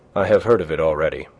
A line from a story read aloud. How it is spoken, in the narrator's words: said André Louis